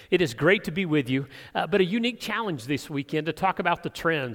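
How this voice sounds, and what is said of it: Hoarse voice. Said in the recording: “I'm hoarse this morning because we've been talking ever since I hit the car yesterday afternoon”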